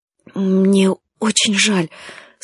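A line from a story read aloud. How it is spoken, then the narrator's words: Voice breaking. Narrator (Russian): сказала Павла дрогнувшим голосом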